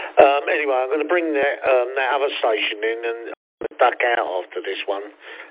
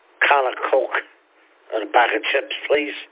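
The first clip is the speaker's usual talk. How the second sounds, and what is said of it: Weak attempt at Scouse accent. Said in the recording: “Can't do it. I used to be able to do that accent. But yeah, that sort of Scouser accent.”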